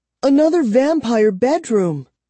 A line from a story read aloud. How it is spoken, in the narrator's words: Kara cried